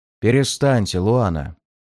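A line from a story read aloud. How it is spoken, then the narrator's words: Deep bass voice. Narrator (Russian): пробасил я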